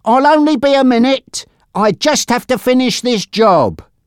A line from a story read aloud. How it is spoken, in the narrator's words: he shouted